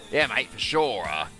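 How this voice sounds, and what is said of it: Put-on Australian accent. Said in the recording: “Trying to do my best full-bore Australian accent there”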